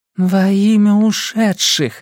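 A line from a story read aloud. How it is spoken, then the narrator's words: Inner moan. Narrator (Russian): мысленно простонала она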